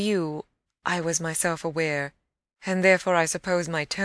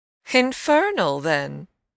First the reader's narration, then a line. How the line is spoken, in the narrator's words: I almost cheerfully rejoined